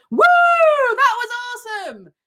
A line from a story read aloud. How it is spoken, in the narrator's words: in the loudest voice ever